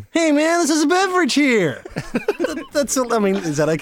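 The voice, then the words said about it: Laid-back Californian surfer voice. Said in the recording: “the dude in the Big Lebowski ... it's like Californian surf”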